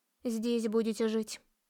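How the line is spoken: Woman's grumble. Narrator (Russian): буркнула женщина

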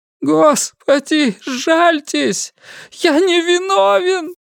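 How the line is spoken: Moaned again. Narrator (Russian): вновь застонал Амори

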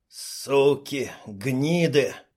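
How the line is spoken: Hoarse rasp. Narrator (Russian): прохрипел

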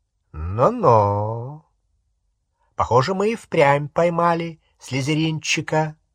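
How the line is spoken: Drawling. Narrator (Russian): протянул Струпьер

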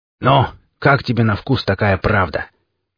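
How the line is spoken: Hoarse unfamiliar voice, close by. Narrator (Russian): произнес хриплый голос над самым ухом, и он совсем не был похож на тот, что так долго сводил меня с ума

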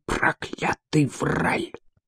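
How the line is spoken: Muttered through teeth. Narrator (Russian): Мин бормочет сквозь зубы

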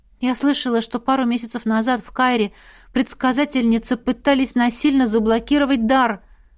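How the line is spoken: Sighing. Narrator (Russian): вздохнула я

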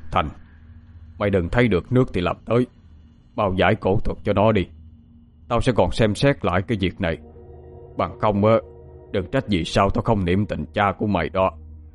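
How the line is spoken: Harsh, stern. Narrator (Vietnamese): ông trưởng mới quay qua nhìn mặt ông Thành mà gằn giọng

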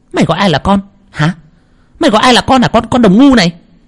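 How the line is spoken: Shrill angry hiss. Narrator (Vietnamese): Cô Thao rít lên

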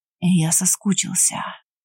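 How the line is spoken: Breathed out. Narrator (Russian): выдохнул

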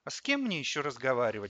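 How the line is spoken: Sighing. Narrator (Russian): вздохнул Костя

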